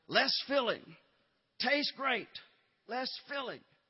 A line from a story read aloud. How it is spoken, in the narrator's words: the other side shouted